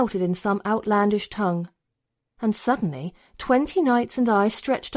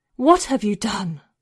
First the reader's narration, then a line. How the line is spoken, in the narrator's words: Lady Attar cried